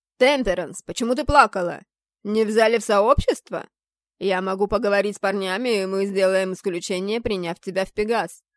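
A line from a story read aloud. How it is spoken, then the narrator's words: King shouting after someone. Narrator (Russian): крикнул вслед плохой король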